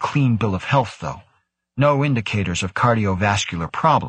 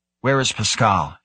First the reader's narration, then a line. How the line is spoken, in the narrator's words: asked, her voice sharp, cutting